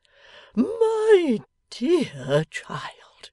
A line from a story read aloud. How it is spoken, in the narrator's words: he then panted incoherently